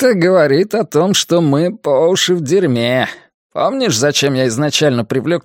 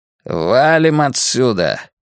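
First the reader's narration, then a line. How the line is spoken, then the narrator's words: Growling. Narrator (Russian): прорычал Хардвик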